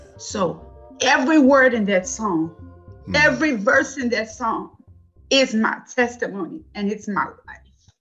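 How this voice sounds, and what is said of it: Emotional, choked-up voice. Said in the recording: “I'm sorry to get emotional.”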